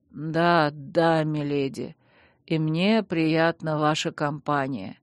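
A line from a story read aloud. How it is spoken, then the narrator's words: Quiet drowsy speech, snort. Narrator (Russian): тихо проговорил герцог и всхрапнул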